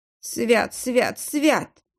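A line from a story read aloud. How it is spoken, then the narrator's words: Frightened mutter. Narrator (Russian): пробормотал Кондрат, отступая к стене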